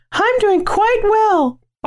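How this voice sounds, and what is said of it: Put-on girly voice. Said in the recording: “why'd you do it in that voice? ... I'm a girl now.”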